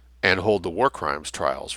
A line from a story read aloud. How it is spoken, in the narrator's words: Wrench whispered